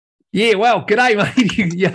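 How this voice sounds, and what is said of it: Bad put-on Australian accent. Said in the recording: “we haven't done a bad Australian accent yet, mate.”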